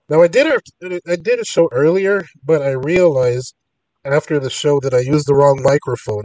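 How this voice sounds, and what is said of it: Strained, congested voice. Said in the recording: “I'm still battling a cold, so I'm going to try to power through this show as best I can, but my voice isn't the best right now. It's been really uncooperative.”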